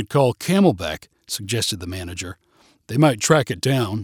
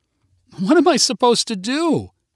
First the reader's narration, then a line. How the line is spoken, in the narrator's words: cried Jessica